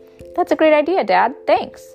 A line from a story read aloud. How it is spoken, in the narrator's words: I chirped